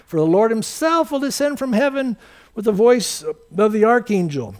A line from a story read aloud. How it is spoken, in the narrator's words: with a shout